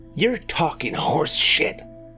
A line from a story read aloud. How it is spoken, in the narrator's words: hissed Roy